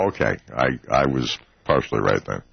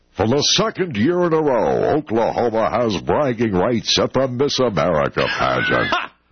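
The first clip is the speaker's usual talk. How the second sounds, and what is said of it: Exaggerated broadcaster announcer voice. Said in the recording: “my best puker broadcaster voice”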